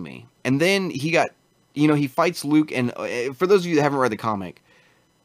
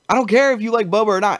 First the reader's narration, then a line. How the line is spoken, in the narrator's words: he screamed like a bitch